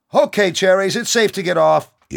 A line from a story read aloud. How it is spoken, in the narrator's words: yelled the lone soldier